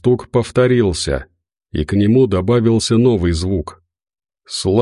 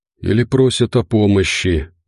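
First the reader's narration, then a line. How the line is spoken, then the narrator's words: Breathless exhale. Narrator (Russian): выдохнул Семен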